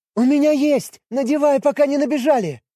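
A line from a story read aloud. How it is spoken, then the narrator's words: Girl shouting. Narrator (Russian): Прокричала девушка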